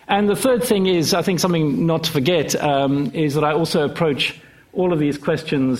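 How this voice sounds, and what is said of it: Unusual, hard-to-place accent. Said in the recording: “the strangeness of my accent, which might make you think that I've got a complicated and convoluted background”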